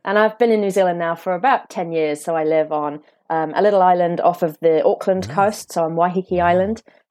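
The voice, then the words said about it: British accent. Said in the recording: “Originally from the UK, as you'll tell by my accent.”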